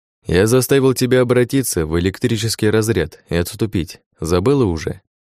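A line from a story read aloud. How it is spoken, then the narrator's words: Calm. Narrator (Russian): Спокойно произнес я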